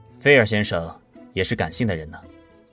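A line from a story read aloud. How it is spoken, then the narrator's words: Faint smile. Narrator (Chinese): 麦斯淡淡一笑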